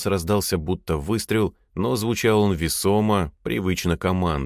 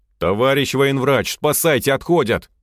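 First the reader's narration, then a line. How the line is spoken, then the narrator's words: Shout. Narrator (Russian): крикнул Слава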